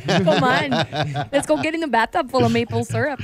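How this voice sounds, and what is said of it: Bad put-on Canadian accent. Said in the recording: “Your Canadian accent is horrible. ... This is horrible.”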